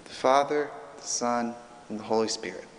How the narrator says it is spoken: The shy and nervous confirmand, put on the spot, mumbles quietly as a mouse, as a nervous person might

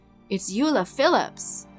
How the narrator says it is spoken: yelled

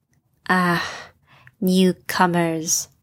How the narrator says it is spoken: Ellie sighed

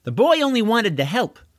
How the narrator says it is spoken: said Deirdre

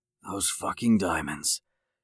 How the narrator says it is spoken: Jake whispered to himself

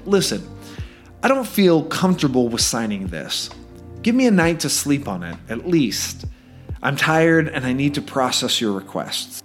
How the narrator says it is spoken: I kindly said

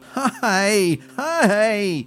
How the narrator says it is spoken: cried Melody

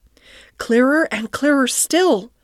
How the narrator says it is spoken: cried the Rat joyously

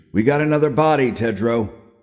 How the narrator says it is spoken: shouted

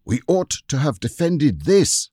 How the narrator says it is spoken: he cried to the others

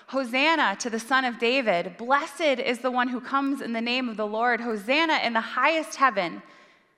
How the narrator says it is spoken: The crowd that went ahead of him and the crowd that followed him were shouting

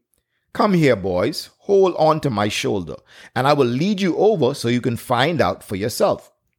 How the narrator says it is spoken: replied Father Leon

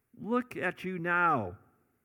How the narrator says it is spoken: they yelled at him

